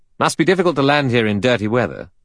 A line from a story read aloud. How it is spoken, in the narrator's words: Philip Lombard said sharply